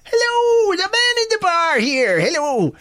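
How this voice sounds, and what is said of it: Exaggerated put-on Irish accent. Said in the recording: “a ridiculous Irish accent, which I can't even remember how it goes”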